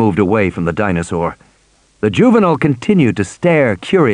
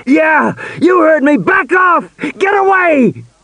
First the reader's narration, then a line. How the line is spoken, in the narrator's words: Regis was shouting